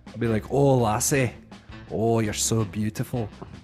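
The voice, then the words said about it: Put-on Scottish accent. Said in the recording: “I do like a Scottish. I'll do a Scottish accent ... What's the Scottish one?”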